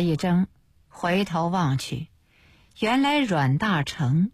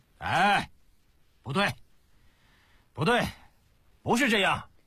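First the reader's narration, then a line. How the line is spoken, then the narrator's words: Loud shout. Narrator (Chinese): 忽然大堂门口，有人高声大叫起来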